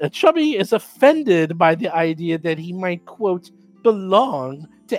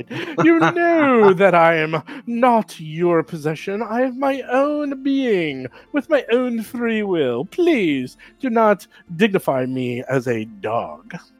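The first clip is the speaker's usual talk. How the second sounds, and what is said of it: Dignified English-accented character voice. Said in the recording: “he speaks like with an English accent, all dignified.”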